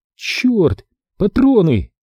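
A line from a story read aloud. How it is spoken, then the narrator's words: Exclaimed. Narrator (Russian): воскликнула она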